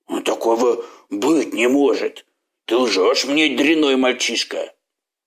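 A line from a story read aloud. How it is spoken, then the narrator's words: Growl again. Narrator (Russian): зарычал он снова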